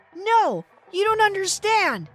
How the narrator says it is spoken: the man shouted

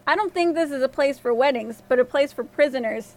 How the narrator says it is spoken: the king replied

